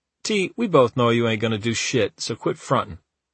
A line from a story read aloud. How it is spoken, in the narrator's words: Rob just laughed and said